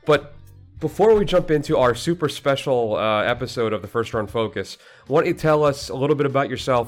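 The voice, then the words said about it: Sick-sounding voice. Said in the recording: “I ran into a little illness. You can probably hear it in my voice, actually, even now as we speak.”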